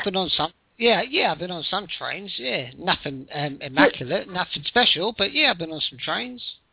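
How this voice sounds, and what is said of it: Southern English British accent. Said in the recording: “You have that beautiful accent. ... I'm from UK, Portsmouth, South England.”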